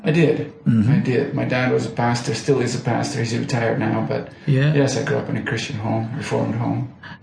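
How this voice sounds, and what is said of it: Dutch accent in English. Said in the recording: “you speak with an accent... I suppose it's because I'm Dutch... I've lived in Canada for over 30 years, but I am Dutch. So yes, the accent is definitely still there.”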